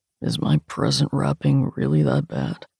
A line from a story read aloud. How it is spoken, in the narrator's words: he can ask me in a quiet grumble